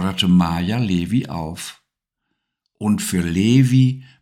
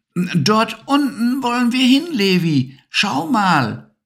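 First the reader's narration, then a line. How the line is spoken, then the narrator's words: Calling out. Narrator (German): rief Maya Levi zu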